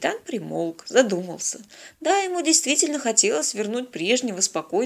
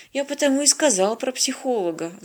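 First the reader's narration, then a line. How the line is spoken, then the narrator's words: Sighing. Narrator (Russian): вздохнул Венька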